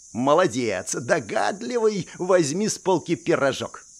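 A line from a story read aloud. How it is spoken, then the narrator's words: Cheerful. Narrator (Russian): весело проговорил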